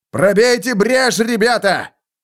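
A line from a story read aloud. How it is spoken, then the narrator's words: Shouting. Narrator (Russian): крикнул Лефлер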